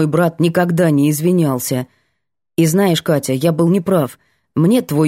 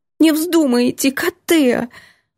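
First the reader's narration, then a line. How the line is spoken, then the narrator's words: Sobbing. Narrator (Russian): Лялька снова всхлипывает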